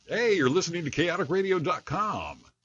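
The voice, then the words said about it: Wacky DJ voice. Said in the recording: “Do that wacky DJ voice one more time.”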